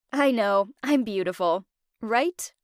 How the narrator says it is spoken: She just laughed

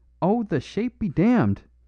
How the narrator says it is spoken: cried Flambeau

